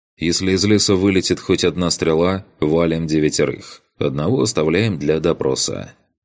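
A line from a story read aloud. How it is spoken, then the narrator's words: Calm over radio. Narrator (Russian): спокойно сказал я в канал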